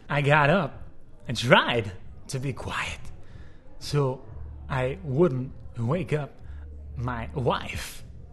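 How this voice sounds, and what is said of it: Christopher Walken impression. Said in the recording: “do a Christopher Walken impersonation”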